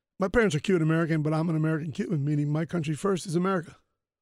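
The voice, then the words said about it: Unusual Cuban-American accent. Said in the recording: “I'm from Cuban heritage. You can kind of tell by my accent. It's a bizarre accent”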